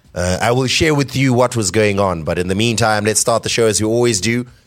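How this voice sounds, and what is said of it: Voice sounds worn and unwell. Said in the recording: “You may hear it in my voice. I am not at 100% capacity. I, I think I overdid it this weekend.”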